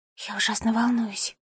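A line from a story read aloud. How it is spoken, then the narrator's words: Whispering. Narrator (Russian): прошептала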